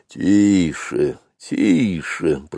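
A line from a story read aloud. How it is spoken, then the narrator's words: Grumbling wild elephant. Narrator (Russian): пробурчал дикий слон Хатхи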